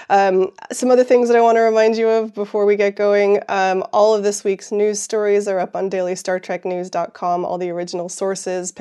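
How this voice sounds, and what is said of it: Weak, congested voice. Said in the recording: “my voice is not that great today ... I'm recovering from a sinus infection”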